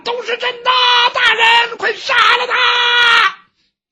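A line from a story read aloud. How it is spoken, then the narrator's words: Crowd shouting in unison. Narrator (Chinese): 这堂下很多被去喊冤的人齐声呼喊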